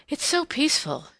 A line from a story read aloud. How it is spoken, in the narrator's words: she said, as if in explanation of her sigh